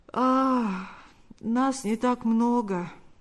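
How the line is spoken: Slightly sleepy. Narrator (Russian): ответил тот немного сонным голосом

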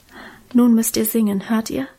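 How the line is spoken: Whisper. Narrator (German): Dann flüsterte sie

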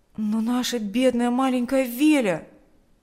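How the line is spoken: Dismayed exclamation. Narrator (Russian): воскликнул Миша, поняв вдруг, что будет означать для нее эта ссылка

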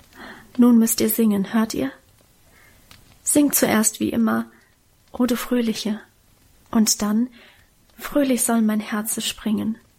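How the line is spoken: Whisper. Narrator (German): flüsterte sie

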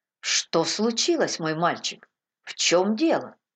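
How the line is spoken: Surprised question. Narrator (Russian): Удивленным голосом Трефи спросил

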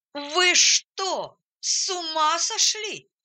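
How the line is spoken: Full-throated shout. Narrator (Russian): закричал он во все горло

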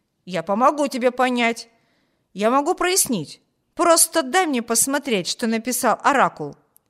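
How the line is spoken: Exclaimed. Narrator (Russian): воскликнул Виберт

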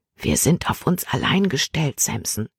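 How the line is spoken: Whispering in ear. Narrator (German): flüsterte sie ihm ins Ohr

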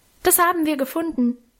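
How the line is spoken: Called out. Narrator (German): rief

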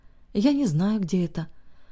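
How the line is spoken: Very tired, effortful speech. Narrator (Russian): очень устало произнесла собеседница, как будто говорить ей стоило больших усилий

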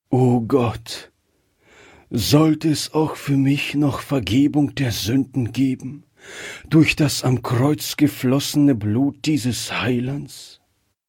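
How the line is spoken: Heartfelt sigh. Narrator (German): kam dieser Seufzer aus seinem Herzen

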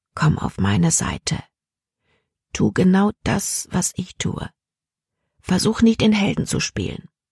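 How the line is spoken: Quiet. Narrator (German): sagte leise

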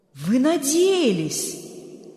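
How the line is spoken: Stunned exclamation. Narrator (Russian): ошеломленно воскликнул Берг

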